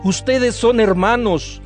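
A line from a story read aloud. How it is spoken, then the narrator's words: Plain. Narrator (Spanish): les dijo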